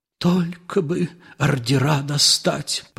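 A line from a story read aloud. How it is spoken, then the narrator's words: Whisper. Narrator (Russian): прошептал Ипполит Матвеевич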